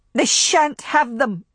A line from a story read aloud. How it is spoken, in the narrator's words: she cried aloud